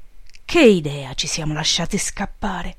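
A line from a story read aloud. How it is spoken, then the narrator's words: Sigh. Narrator (Italian): sospirò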